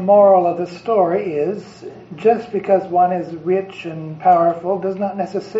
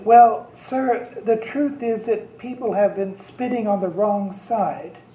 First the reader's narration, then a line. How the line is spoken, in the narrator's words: The postmaster faltered for a moment, then explained